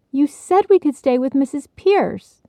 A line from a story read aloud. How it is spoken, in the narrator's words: Bridget reminded indignantly